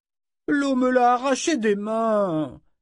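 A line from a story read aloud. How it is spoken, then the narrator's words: Moaning. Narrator (French): gémit-il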